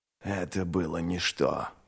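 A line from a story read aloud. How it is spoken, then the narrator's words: Grumbling. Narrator (Russian): проворчал ничто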